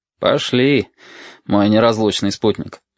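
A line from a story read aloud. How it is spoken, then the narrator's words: Sighing. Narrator (Russian): вздохнул Валентин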